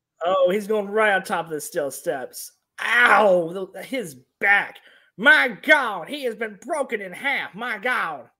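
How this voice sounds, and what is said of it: Poor imitation of another person's voice. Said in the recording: “You're not Jim Ross, but I'll give you that ... my terrible Jim Ross impersonation”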